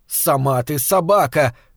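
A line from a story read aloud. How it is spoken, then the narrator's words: Shouted. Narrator (Russian): крикнула она Танечке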